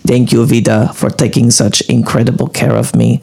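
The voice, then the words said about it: Put-on accent while reading aloud. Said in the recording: “I think my accent changed... No, it's pretty good.”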